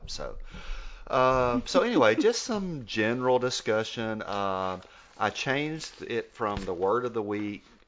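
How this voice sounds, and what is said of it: West Texas accent. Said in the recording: “my West Texas accent”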